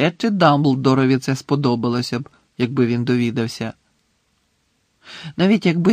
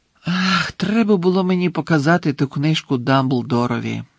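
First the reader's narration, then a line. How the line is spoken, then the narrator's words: Sighing. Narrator (Ukrainian): зітхнув Гаррі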